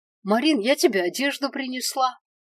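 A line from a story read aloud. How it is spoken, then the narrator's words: Joyful announcement. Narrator (Russian): радостно возвестила Линдау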